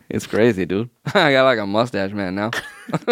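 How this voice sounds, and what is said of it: Exaggerated put-on offensive accent. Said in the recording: “I got a new accent, bro ... check out this offensive accent I came up with”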